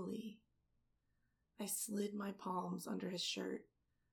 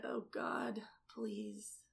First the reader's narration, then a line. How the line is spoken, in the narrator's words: Moaning, he said